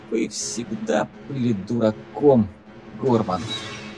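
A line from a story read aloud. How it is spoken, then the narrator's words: Hissing whisper. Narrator (Russian): Она свистящим шепотом произнесла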